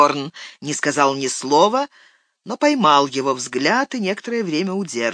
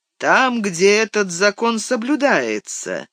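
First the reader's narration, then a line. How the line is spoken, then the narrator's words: Slow deliberate speech. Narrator (Russian): медленно проговорил Гэндальф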